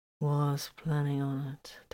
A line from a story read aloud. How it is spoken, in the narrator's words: slurred peaceably